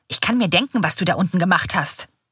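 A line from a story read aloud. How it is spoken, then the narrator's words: Hissing. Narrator (German): faucht er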